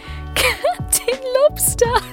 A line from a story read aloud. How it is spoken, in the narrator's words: she'd said through painful chuckles